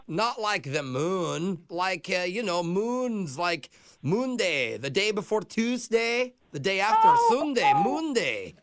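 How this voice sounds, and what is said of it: Scottish accent. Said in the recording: “I know this is your accent ... like in Scotland”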